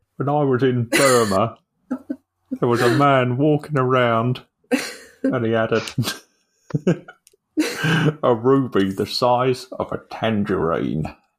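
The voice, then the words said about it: Put-on accent. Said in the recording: “I think we should aim to add more and more accents to our repertoire”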